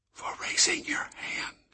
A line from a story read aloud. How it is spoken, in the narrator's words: Marta whispered